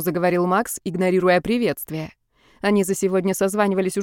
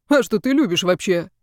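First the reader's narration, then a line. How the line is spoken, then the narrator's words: Philosophical snort. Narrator (Russian): философски хмыкнули на той стороне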